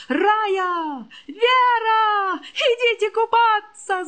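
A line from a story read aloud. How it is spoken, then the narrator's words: Ringing shout. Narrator (Russian): звонко крикнула Женька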